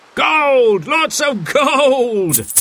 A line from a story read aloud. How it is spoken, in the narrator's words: The captain cried out